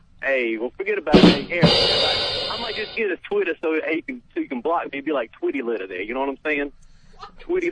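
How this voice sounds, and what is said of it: Puts on an unusual accent. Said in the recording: “What is with this accent? ... that's not an Albany accent.”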